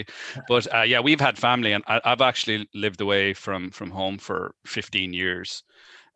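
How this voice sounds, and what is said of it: Irish accent. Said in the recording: “Both me and ... are from Ireland, if we haven't got from the accent already”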